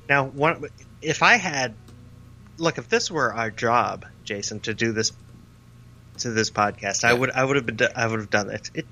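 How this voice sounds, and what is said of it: Stuttering, tripping over words. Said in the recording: “I'm having a – I sound like Lonze right now ... I'm stuttering over my words”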